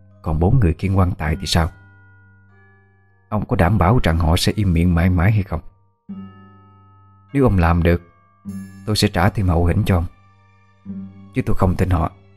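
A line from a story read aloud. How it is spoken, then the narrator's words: Urgent close whisper. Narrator (Vietnamese): bà ấy vội níu tay lại, ghé sát miệng mà thì thầm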